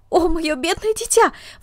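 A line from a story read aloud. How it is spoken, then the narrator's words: Exclamation. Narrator (Russian): воскликнула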